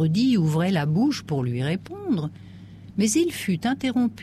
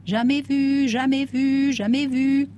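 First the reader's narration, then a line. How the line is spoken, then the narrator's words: Shouting. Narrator (French): criait l'un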